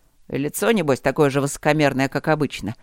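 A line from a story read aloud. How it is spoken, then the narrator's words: Grumbling. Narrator (Russian): проворчал Март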